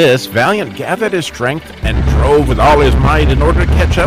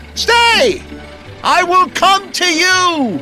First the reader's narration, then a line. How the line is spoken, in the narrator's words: Valiant cried again